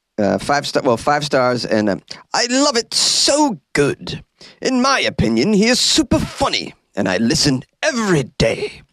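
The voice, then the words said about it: Imitates another person's voice. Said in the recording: “That was my impression of someone writing me a review ... Did I sound exactly like DK Donkey Kong? Probably not.”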